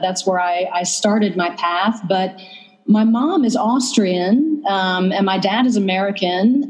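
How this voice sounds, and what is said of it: Slight Southern US accent. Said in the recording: “I detect a little accent. ... I'm from the South, actually. I'm from North Carolina.”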